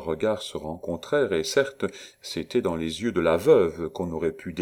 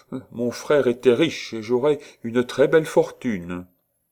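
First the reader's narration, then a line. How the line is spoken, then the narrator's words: Self-important interruption. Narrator (French): Valentine l'interrompit pour dire d'un ton important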